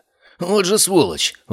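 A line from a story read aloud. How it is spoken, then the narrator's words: Exclamation. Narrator (Russian): воскликнул Синицын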